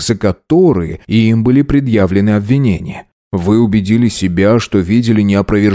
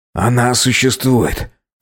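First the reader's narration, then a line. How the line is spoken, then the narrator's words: Exclamation. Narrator (Russian): воскликнул он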